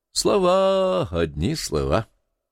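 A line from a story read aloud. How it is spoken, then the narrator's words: Drawl. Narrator (Russian): протянул Пельгам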